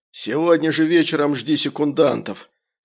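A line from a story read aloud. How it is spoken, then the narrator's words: Angry hiss. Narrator (Russian): зло прошипел поляк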